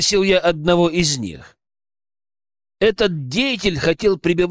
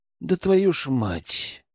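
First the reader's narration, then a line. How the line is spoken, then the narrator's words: Sighed. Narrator (Russian): вздохнул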